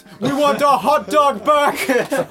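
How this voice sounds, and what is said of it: Put-on generic foreign accent. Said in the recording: “Is that your African accent? ... That's my general not here accent”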